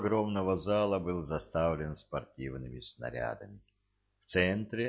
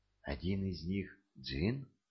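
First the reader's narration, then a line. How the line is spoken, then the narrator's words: Whispered. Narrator (Russian): прошептала Кэт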